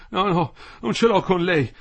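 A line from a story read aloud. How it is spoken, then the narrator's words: Panting. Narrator (Italian): ansimava Quinto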